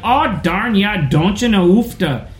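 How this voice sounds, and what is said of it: Put-on northern Minnesota accent. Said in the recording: “In Bemidji and up north ... like the oh, like the we enunciate our o's here”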